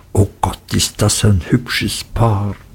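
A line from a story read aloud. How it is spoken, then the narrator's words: Whispering. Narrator (German): Gummidge und Peggotty, die sich zuflüsterten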